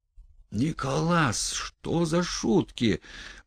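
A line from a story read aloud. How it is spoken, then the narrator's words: Mechanical groan, strange voice. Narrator (Russian): простонал машинально, не своим голосом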